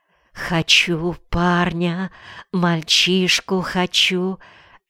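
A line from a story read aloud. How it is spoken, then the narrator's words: Whispered. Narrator (Russian): шептала Клава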